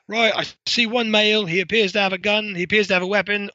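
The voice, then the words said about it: Put-on British accent. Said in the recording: “in my best British accent”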